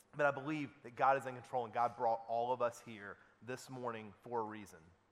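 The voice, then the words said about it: Weird regional accent. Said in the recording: “I've got a weird accent.”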